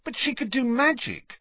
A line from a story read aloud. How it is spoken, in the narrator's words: said Harry impatiently